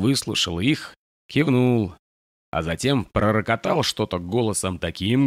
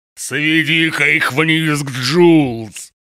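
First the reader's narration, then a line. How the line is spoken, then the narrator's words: Thundering. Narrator (Russian): прогремел Нокс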